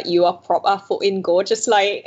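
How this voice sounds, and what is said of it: Good put-on Geordie accent. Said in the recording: “Geordie ... That was actually quite a good accent as well, though. I'm very impressed.”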